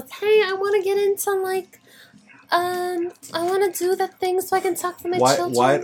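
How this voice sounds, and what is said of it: Put-on mom character voice. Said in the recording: “Why does your mom voice sound like the Chipotle kid from Vine? ... That's how your mom voice sounds.”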